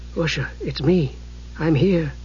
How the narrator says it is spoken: he said softly

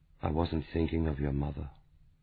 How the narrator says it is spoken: Jean-Philippe said quietly

